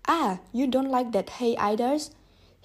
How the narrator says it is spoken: cried angrily

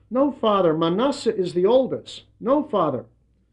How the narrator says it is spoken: upset Joseph, who cried out

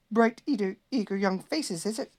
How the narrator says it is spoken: exclaimed angrily

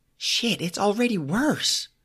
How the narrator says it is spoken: Brandy exclaimed

